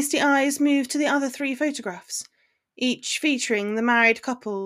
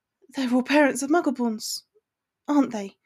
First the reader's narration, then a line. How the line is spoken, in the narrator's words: questioned sadly, already knowing the answer